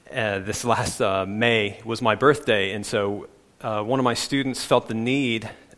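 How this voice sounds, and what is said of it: American accent. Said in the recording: “this strange guy with a strange accent ... I'm from the U.S.”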